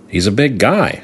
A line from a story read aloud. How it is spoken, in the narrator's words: I said